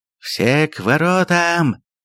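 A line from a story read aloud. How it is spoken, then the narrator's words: Roar. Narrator (Russian): проревел Маметкул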